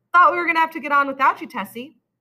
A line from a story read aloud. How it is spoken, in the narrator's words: Summers said cheerfully